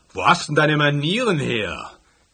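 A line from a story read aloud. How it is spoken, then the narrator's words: Roaring at someone. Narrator (German): brüllte dieser reizende Kerl mich an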